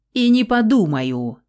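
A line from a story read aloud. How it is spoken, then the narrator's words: Bird barking loudly. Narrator (Russian): гаркнул птиц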